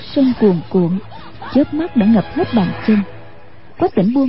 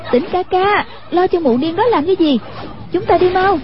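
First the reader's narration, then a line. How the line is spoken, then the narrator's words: Calling out. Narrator (Vietnamese): Hoàng Dung kêu lên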